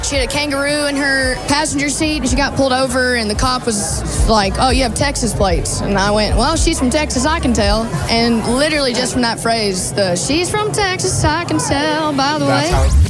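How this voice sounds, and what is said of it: Broad American accent. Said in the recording (Dutch): “dat plat Amerikaanse accent”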